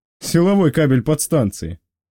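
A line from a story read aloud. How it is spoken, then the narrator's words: Chuckling. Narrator (Russian): хохотнул боцман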